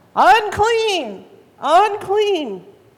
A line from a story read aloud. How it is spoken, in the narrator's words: you had to yell out